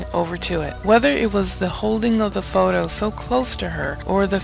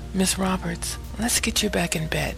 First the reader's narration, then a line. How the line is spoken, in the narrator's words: the aide whispered softly